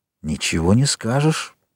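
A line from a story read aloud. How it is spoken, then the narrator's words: Whisper. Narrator (Russian): шепнул Альбер Францу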